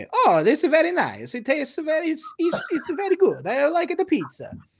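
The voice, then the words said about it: Exaggerated Mario-style Italian accent. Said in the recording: “Go go play Mario 64 and listen... he talks like this the whole time... do an impression of Jared Leto in House of Gucci”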